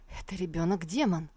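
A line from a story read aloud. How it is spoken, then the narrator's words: Frightened mutter. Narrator (Russian): Цанхай испуганно пробормотал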